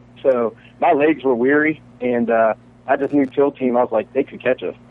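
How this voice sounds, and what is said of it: Slight Southern twang accent. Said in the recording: “you got a little Southern twang in your accent ... he has such a distinct accent.”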